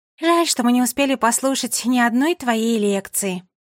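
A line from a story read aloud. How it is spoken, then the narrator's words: Sighing. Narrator (Russian): вздохнула Агата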